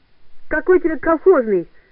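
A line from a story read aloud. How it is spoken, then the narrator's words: Shouted. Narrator (Russian): крикнул Мишуха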